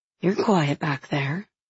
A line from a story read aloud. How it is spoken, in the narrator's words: Merity murmurs